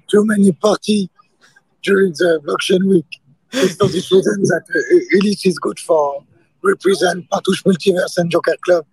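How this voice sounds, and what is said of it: Hoarse, broken voice. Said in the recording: “my voice is broken.”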